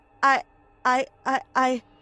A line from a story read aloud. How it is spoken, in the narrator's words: I stuttered